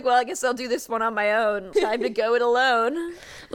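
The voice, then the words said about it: Put-on British accent. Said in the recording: “I don't know why I gave him a British accent.”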